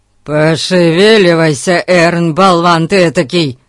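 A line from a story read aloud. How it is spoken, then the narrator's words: Roared. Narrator (Russian): взревел мистер Гун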